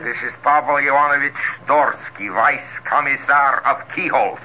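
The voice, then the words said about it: Put-on comedy Russian accent. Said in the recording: “What's the idea of the comedy accent? ... It's the only Russian accent I've got.”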